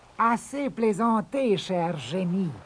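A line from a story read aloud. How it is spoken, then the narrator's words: Calm remark. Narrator (French): lança-t-il calmement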